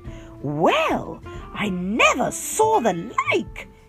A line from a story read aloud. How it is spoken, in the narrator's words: cried